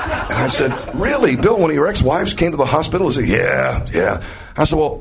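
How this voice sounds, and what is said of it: Usual voice. Nothing is said of it.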